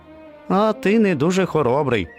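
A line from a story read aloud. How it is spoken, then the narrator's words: Laughing. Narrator (Ukrainian): засміявся песик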